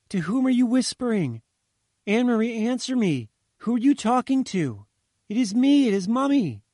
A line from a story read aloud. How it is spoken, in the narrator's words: the mother shouted, bewildered